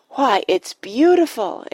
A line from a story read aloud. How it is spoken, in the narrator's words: exclaimed Penelope, drawing a deep breath